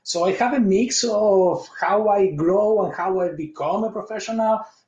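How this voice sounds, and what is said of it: Argentine Spanish-accented English. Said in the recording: “you probably also notice the accent ... I was born in Argentina. I moved and I lived 11 years in Spain.”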